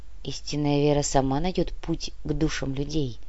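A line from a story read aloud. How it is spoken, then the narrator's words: Quiet, calm reply. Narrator (Russian): тихо ответил митрополит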